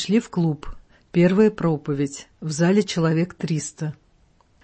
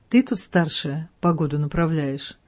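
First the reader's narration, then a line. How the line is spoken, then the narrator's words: Quiet question. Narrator (Russian): тихонько спросил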